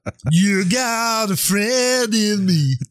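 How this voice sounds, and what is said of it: Imitates another person's singing voice. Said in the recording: “your Randy Newman Star Wars music impersonation ... Randy Newman may be the most done impression ... your every accent impersonation is the same voice that you do a lot”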